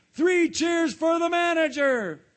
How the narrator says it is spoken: cried Mr

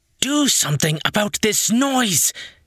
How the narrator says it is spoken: Urea yelled

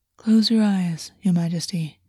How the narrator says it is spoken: Augus said, allowing his voice to soften

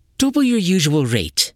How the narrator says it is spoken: said sternly

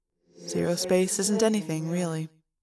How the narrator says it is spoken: I said quietly

